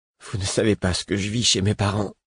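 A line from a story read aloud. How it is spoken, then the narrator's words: Whispering. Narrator (French): chuchota-t-il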